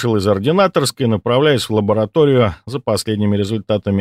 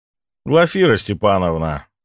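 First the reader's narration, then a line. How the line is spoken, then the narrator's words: Tired. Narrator (Russian): устало ответил Сомов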